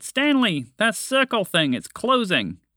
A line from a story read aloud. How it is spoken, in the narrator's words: Montgomery the Mouse saw that the opening was starting to shrink and shouted